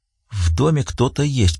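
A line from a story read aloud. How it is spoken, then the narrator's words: Whisper. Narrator (Russian): прошептала она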